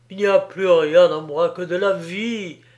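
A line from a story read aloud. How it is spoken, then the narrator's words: Exclaimed. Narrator (French): s'écriait Pascal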